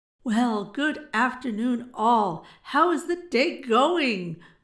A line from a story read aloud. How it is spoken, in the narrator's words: boomed out Osei in a hearty, fake tone